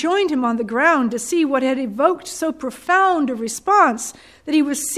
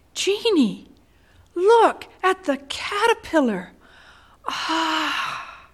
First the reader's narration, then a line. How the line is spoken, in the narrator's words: exclaimed to me